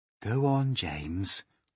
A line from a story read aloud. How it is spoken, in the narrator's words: the ladybird said gently